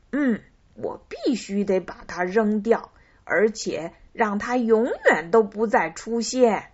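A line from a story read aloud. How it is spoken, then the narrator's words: Laughing. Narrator (Chinese): 小猪笑道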